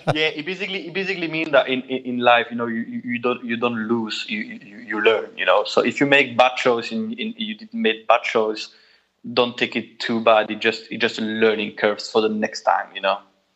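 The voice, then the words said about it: French accent. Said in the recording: “that's why I have this French accent ... it's very. Difficult for me to remove it”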